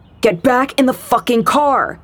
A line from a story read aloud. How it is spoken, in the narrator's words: the guy was shouting now